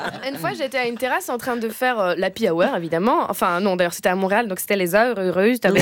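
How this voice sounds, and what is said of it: Usual voice. Nothing is said of it.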